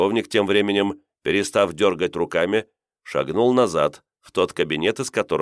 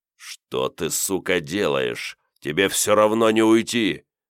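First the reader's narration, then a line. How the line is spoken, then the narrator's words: Deep bass voice. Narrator (Russian): пробасил он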